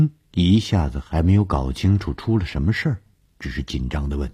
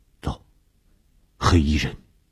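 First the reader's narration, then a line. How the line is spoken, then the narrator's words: Low voice. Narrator (Chinese): 低声地说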